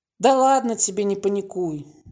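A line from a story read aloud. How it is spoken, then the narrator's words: Sighing. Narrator (Russian): вздохнул Володя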